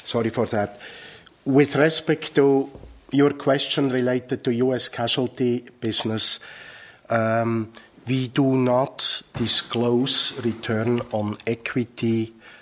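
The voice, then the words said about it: Deeper than usual, coughing voice. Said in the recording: “my voice sounds a little bit deeper than it usually does ... I am suffering under a cough”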